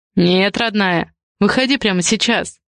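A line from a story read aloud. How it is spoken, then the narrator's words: Muffled, hollow voice. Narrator (Russian): глухо произнес Адриан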